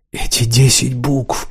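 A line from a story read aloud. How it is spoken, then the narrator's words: Whisper. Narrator (Russian): прошептал он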